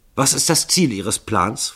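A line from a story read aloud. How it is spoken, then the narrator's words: Hasty question. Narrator (German): fragte Stuckington hastig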